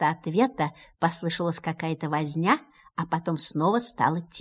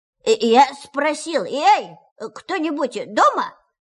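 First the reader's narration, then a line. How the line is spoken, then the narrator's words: Very loud repetition. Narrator (Russian): повторил Пух громко-громко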